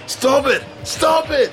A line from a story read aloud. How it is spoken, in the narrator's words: shouted